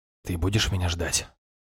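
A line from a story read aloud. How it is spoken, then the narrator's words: Intimate whisper. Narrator (Russian): шепнул я в приоткрытые алые губы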